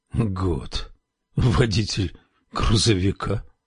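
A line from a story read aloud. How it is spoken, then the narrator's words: Confused muttering. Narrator (Russian): растерянно пробормотал Лоуренс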